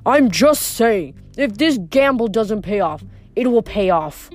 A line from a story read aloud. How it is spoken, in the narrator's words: Luke snapped